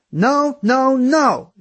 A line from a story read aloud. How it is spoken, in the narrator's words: she yelled